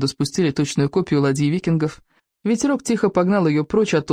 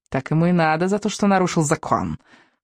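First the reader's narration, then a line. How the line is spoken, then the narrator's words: Angry snort. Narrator (Russian): Фыркнула гневица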